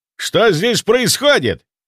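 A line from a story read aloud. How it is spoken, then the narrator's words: Roaring, chief doctor. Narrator (Russian): взревел главврач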